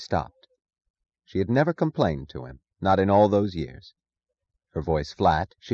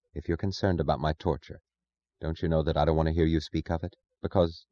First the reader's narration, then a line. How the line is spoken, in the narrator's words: she said, her voice low